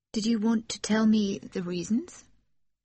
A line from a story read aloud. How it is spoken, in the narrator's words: She asked timidly